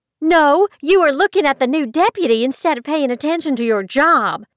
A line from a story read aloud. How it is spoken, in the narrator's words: she screeched